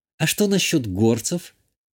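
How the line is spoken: Barely audible question. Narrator (Russian): чуть слышно спросила Иштания

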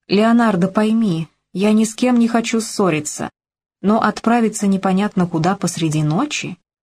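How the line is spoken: Soft spoken. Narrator (Russian): мягко произнесла

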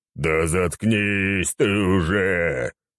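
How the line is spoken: Growl. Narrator (Russian): прорычал Рабадон

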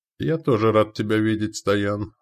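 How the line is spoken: Laughing. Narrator (Russian): рассмеялся я

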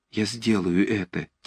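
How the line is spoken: Quiet exclamation. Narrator (Russian): тихо воскликнул Ромашов

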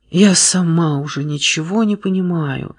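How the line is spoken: Quiet confession. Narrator (Russian): призналась она тихо

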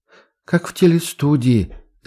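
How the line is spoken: Hoarse whisper. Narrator (Russian): севшим голосом прошептала Маша

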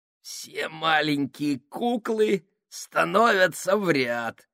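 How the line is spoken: Creaky voice. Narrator (Russian): сказал он скрипучим голосом

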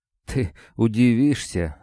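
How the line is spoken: Forced out. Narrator (Russian): выдавил Гриша

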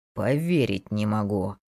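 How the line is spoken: Through clenched teeth. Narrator (Russian): процедил Самир сквозь стиснутые зубы

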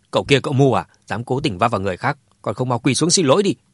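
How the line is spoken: Angry shout. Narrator (Vietnamese): ông Mã đã tức giận quát Dương Chấn

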